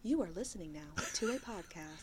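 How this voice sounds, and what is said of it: Polished customer service voice. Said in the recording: “automatic customer service voice ... pretty good, too. You're getting really good at that.”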